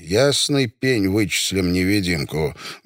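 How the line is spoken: Menacing. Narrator (Russian): грозно сказал Жунёв

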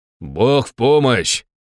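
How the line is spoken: Shouted. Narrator (Russian): крикнул я

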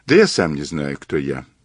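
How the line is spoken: Sighing. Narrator (Russian): сказал Мазур, вздохнув

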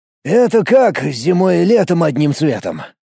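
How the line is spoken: Disappointed sigh. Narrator (Russian): вздохнул разочарованный загадкой Сергей

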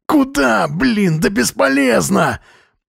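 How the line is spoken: Yelling from behind. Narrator (Russian): Орал сзади Железнов

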